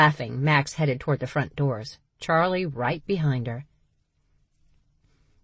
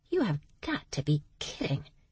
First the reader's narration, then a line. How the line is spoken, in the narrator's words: Max muttered